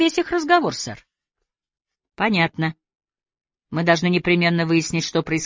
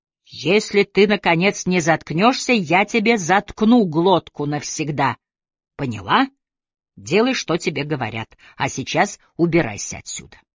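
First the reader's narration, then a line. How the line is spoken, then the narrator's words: Menacing growl. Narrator (Russian): Гарсия в ответ угрожающе прорычал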